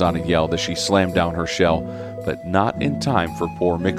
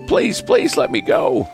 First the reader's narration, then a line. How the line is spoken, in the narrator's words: the oyster catcher sobbed as his toe throbbed